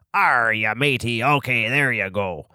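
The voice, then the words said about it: Put-on pirate accent. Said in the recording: “could you do a pirate accent?”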